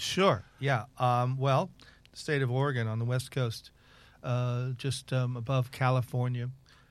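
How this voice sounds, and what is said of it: American accent. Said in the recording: “by the accent, you're not from these parts. You're from the United States.”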